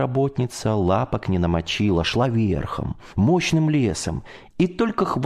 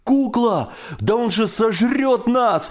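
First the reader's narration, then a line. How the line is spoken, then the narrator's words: Shouted. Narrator (Russian): закричал Коля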